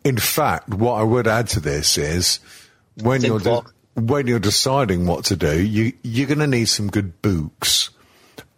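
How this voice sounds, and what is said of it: Northern English accent. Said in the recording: “I'm speaking Northern then. I'll retranslate into English.”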